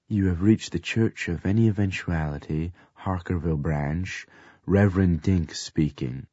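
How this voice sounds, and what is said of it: Smooth, suave voice. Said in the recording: “in my smoothest voice,”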